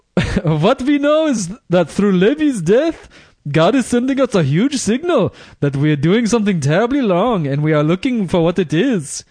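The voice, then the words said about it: Put-on Hasidic accent. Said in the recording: “That's a damn good Hasidic accent there”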